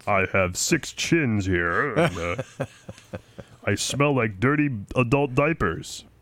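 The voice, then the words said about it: Impression of Mitch McConnell's voice. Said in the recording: “That's not a bad impersonation of his voice, is it? ... Mitch McConnell”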